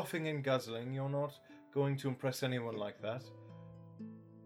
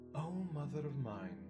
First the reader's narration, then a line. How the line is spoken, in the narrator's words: whispered Queen to Geralt, raising her eyes to the vault for a moment in silent resignation